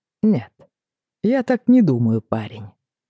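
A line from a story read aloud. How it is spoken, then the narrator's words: Plain. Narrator (Russian): сказал он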